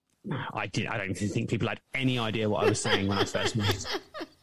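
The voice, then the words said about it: Speaks with a noticeable foreign accent. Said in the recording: “is your accent as strong now as it was when you first came here? ... my accent's changed”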